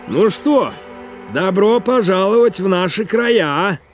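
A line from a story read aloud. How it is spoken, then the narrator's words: Shout, smiling elderly man. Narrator (Russian): выкрикнул очень пожилой улыбчивый мужчина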